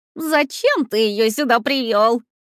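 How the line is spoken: Asked laughing madly. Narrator (Russian): спросил он, все еще смеясь, как сумасшедший

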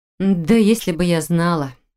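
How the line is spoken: Irritated, through gritted teeth. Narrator (Russian): Раздраженно процедила та

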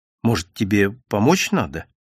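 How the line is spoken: Uncertain question. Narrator (Russian): спросила неуверенно

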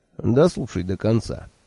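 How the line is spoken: Gentle request. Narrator (Russian): мягко попросил

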